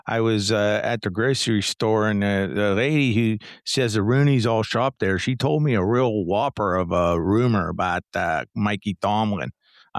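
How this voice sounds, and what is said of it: Put-on Pittsburgh Yinzer accent. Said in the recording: “do a special occasion Pittsburgh Steeler accent ... special Yinzer”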